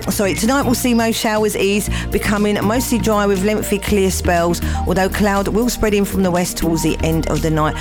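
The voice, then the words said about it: Hoarse, croaky voice. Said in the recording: “I've got a frog in my throat”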